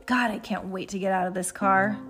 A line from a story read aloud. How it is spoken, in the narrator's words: Heidi grumbles